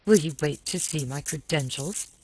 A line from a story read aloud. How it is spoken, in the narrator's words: he snapped